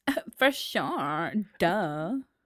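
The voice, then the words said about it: Put-on valley girl voice. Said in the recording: “Can you do a valley girl? ... A valley girl.”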